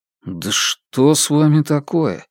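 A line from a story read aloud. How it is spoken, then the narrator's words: Mumble while eating. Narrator (Russian): пробормотал Фан Му, продолжая есть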